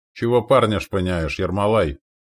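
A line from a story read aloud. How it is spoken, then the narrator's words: Grumbling wounded man. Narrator (Russian): проворчал один из лежащих на топчанах раненых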